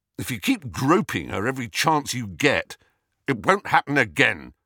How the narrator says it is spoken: said Harry harshly

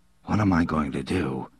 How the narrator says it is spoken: he muttered

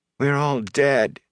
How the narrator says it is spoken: she said sadly

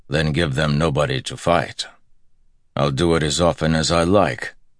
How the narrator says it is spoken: Perrin said gruffly

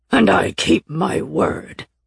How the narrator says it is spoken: he snarled

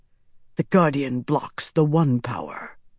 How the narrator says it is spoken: Rand whispered

